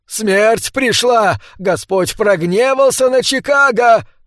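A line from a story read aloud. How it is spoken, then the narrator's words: Man yelling. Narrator (Russian): орал голый мужчина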